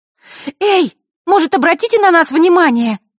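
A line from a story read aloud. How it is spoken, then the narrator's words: Sudden shout. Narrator (Russian): вдруг выкрикнула Василиса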